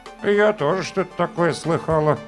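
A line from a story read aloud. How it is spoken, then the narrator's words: Muttered. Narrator (Russian): пробормотала Прасковья Степановна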